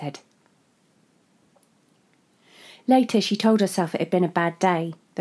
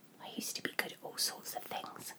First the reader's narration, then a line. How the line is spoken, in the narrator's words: she whispered, as much to herself as her baby